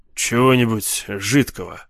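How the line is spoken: Gruff mutter. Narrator (Russian): буркнул он

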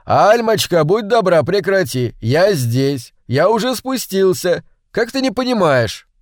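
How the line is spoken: Shouting again. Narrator (Russian): во второй раз крикнул ей

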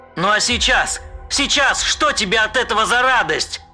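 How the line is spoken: Shout. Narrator (Russian): крикнул он Лесперу

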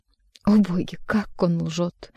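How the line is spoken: Muttering, moving away. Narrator (Russian): бормочет, уходя от решетки, Иван Николаевич

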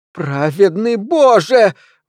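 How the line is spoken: Howled. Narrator (Russian): взвыла мисс Троссет

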